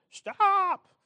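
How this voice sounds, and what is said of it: Barney Fife-style shouted command. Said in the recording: “you get some Barney Fife guy up there, and he says... That was my Barney Fife impression.”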